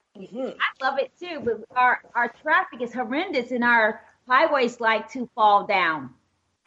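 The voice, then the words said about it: Southern American accent. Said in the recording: “She's got a southern accent, kind of like you from Texas.”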